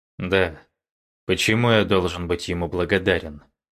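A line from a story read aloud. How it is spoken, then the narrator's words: Cold curt remark. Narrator (Russian): Муян холодно бросил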